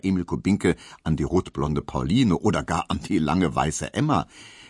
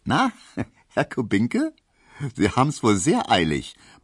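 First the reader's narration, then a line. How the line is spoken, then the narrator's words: Laughing, teasing. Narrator (German): meinte die und lachte Emil Kubinke entgegen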